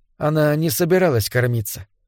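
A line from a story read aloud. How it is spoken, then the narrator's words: Carefully neutral tone. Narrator (Russian): продолжала Беллис, стараясь говорить нейтральным тоном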